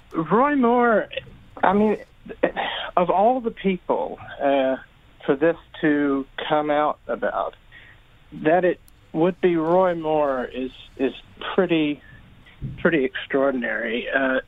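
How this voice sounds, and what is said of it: Southern Alabama accent. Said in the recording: “I'm from Alabama. As maybe apparent from my accent.”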